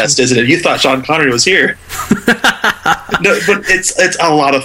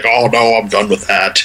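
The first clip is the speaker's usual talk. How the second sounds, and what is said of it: Imitates another person's voice. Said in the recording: “Sean Connery impersonation”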